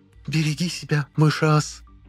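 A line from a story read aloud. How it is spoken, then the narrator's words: Nervous hiss. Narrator (Russian): нервно прошипела нас Шафа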